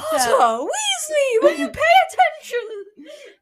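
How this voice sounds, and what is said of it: Put-on British accent, sounds mannish. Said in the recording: “British saying a British accent. That sounds like a man... I'm trying to do a British accent”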